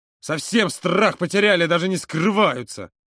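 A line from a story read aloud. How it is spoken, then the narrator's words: Angry hiss. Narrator (Russian): зло прошипел он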